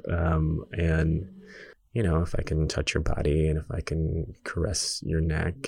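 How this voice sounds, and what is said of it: Sultry phone sex voice. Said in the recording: “putting on my phone sex voice.”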